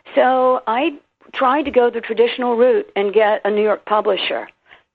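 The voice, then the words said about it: Southern US accent. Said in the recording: “I'm a Southern girl. You can hear from my accent, South Carolina and Tennessee.”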